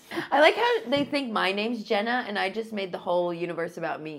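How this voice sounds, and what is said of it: Rural Ohio accent. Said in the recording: “what micro region of the South is ... accent from? ... I'm from Ohio ... It's in the middle of nowhere, so I have a rural accent.”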